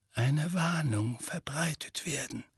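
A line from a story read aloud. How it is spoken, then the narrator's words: Very quiet. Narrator (German): sagte Dumbledore sehr leise zu dem Vogel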